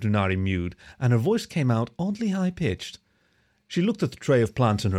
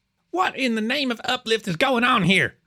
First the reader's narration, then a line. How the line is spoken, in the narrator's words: the captain spat